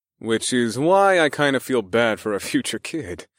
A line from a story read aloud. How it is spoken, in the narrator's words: I chuckled